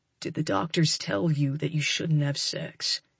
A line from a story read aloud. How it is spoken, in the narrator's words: He asks, his voice going soft